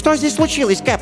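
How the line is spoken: Frightened question. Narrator (Russian): испуганно спросил Ватсон

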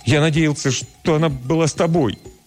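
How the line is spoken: Desperate, broken voice. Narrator (Russian): Отчаянным прерывистым голосом Лео признается

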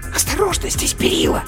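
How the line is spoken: Hissed. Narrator (Russian): прошипела матрешка

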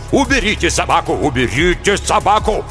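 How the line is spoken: Frantic shouting. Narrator (Russian): Митчелль неистово кричал

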